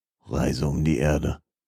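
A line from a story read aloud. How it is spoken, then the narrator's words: Grumbling. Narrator (German): brummte er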